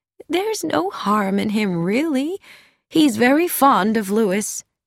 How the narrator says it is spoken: With a sigh, Carrie Louise said

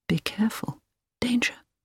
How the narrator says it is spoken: Hilary heard him whisper

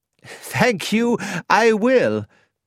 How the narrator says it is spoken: laughed Dr

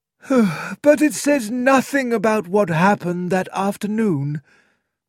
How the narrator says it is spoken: said the coroner with a sigh

